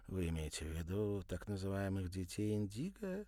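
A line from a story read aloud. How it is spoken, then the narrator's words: Sleepy question. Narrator (Russian): сонным голосом спросила она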